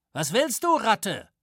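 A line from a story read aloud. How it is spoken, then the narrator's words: Calling out. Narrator (German): rief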